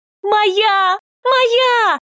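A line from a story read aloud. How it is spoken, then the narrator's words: Joyful squeal. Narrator (Russian): радостно завизжала Наталья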